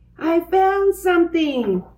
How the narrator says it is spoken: cried Francine

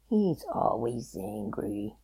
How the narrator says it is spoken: muttered Fox

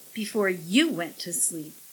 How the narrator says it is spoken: she snapped

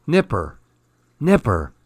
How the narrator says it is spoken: whispered

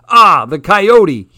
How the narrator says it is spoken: he yelled

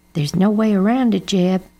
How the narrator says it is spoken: said Mama with a sigh

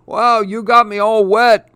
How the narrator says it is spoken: chuckles Grandpa

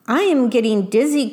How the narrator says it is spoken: cried the worm

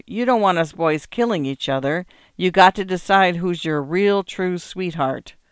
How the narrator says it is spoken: wheezed Preacher

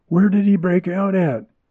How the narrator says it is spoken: The train conductor, always wary of Indian uprisings, demanded excitedly

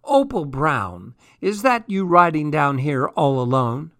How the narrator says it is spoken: Little called out to me

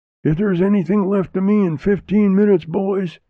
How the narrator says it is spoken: exclaimed

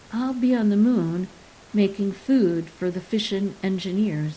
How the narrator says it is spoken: he said

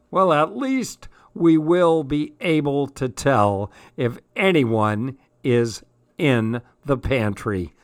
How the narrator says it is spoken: laughed Dad

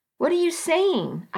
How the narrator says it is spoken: I asked sharply

